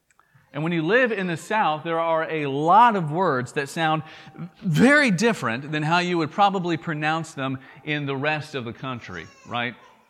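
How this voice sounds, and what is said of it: Thick Southern American drawl. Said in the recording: “my thick southern drawl, I'm from the South”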